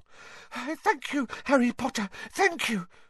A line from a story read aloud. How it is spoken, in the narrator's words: said Dobby breathlessly